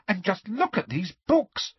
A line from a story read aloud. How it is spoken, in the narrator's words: said Hermione excitedly